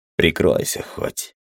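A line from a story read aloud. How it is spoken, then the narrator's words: Grumbled. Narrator (Russian): буркнул я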